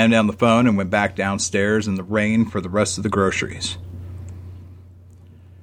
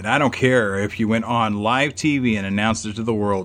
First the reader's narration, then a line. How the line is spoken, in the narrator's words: I said